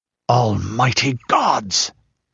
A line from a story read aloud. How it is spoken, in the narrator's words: breathed Kull, an icy hand at his soul